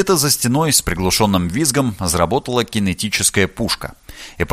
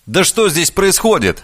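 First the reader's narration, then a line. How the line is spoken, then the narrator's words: Shouted. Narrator (Russian): закричал Влад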